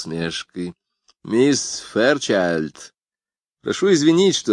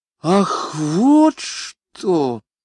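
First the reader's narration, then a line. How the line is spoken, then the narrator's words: Relieved sigh. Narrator (Russian): сказала пассажирка, глубоко вздохнув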